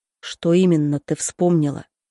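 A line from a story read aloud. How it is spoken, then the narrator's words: Quiet low voice. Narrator (Russian): спрашивает Богдан тихим и низким голосом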